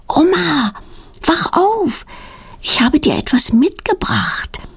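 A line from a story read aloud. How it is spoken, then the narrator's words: Whispered. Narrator (German): flüstert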